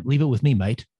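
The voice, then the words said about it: Put-on Australian accent. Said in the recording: “it's even better with the Australian accent.”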